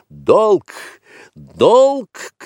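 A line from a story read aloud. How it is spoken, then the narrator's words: Shouted. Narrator (Russian): крикнул Маугли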